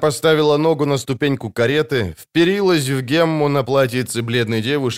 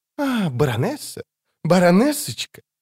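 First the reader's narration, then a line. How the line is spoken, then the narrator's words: Hissing. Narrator (Russian): прошипела она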